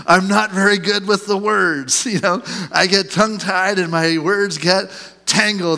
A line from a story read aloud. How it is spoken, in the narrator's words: Moses pleaded